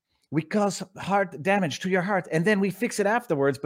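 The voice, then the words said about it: Imitated French-sounding accent. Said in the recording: “I know I'm doing Albert Bourla's accent ... He's French, right?”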